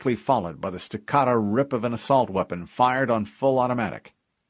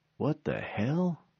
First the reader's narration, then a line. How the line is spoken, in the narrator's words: she muttered